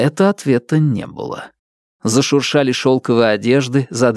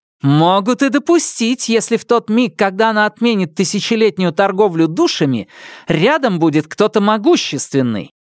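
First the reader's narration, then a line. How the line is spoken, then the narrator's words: Exclaimed over other voices. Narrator (Russian): воскликнула Хелис, перекрикивая директоров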